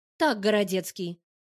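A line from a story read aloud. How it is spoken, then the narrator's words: Stern. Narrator (Russian): Говорю строго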